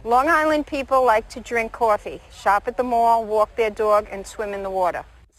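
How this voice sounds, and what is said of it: Long Island accent. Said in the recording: “here's Long Island accent ... So that's a Long Island accent.”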